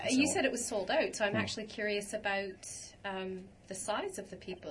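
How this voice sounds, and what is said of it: Canadian accent. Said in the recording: “What a wonderful Canadian accent there”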